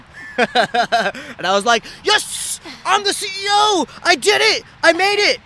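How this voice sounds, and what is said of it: Very loud excited speech. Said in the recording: “I'm talking too loud and I'm clipping, redlining a little bit on the audio”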